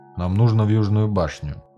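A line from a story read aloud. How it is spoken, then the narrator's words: Gloomy. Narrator (Russian): мрачно сказал гном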